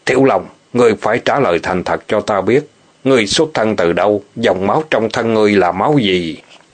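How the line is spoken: Cold, stern. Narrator (Vietnamese): Ô Ứng Nguyên nhìn sang gã quát mắt lạnh lùng nói

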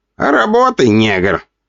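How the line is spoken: Boss guffawing. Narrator (Russian): хохотал появившийся босс

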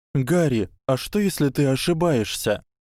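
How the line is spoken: Slightly sad reply. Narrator (Russian): чуть печально пожал плечами и ответил

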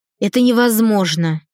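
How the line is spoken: Scornful snort. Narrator (Russian): фыркнула генеральша

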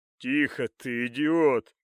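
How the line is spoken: Growl with snorting laughter. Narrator (Russian): Прыснув от смеха, прорычал алхимик

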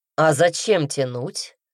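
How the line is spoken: Smirking grunt. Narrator (Russian): хмыкнул Редрик

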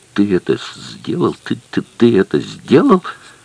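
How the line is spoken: Trembling angry stammering mutter. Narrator (Russian): Дрожа от гнева, бормотал, заикаясь

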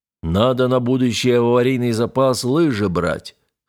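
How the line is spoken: Thrifty deep bass voice. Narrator (Russian): хозяйственно пробасил боцман

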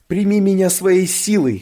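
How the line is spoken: Shouting. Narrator (Russian): кричала

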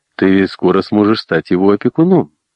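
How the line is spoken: Laughing. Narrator (Russian): он засмеялся

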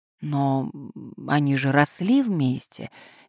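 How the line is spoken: Uncertain objection. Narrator (Russian): неуверенно возразила Селина

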